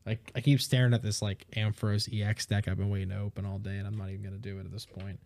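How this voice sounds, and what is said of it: Tired, worn-out voice. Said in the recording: “I am tired. I sound like a bum right now.”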